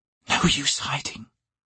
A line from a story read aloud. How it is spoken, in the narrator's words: she whispered